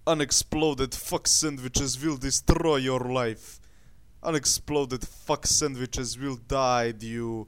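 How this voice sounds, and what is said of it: Put-on Russian accent. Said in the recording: “I need more Russian in my accent.”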